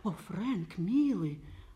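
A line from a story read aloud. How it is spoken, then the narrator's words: Tender. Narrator (Russian): ласково говорила она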